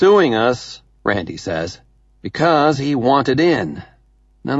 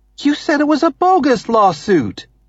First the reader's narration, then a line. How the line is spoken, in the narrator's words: Amy exclaims, the only person here who is bothering to show or feel any moral outrage